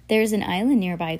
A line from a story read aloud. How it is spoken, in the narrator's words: Klaus said